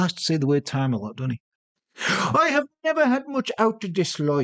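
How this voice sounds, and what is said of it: Usual voice. Nothing is said of it.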